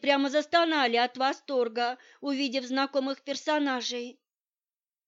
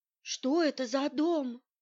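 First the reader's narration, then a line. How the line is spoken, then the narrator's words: Whisper. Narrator (Russian): прошептала она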